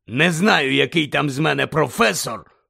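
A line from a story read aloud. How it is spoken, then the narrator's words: Growling voice. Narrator (Ukrainian): прогарчав голос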